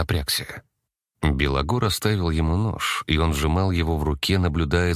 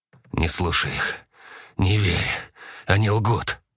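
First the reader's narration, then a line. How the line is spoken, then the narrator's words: Hoarse rasp. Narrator (Russian): прохрипел он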